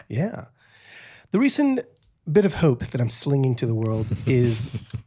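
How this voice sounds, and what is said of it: Mixed Mexican American British accent. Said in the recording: “talking in a Mexican American British accent”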